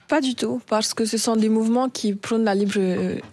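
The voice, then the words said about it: Warm, sunny regional French accent. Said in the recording (French): “Quel bel accent, c'est un grand soleil lorsqu'on entend Miss France ... On n'a pas essayé de vous le faire changer?”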